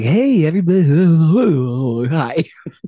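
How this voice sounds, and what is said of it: Upbeat car salesman voice. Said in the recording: “Sometimes I sound like a car salesman ... That's what a car salesman sounds like.”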